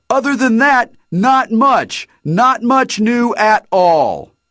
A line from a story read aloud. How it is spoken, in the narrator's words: shouted